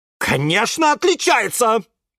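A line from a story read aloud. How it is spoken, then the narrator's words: Barked harshly. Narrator (Russian): рявкнула тетя Глаша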